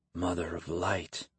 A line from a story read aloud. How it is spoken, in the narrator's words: Kyle said under his breath